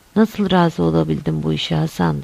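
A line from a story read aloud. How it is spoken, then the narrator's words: Plain. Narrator (Turkish): dedi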